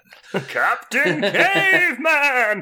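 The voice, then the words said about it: Cartoon character voice impression. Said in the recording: “Your impression is so much better than mine.”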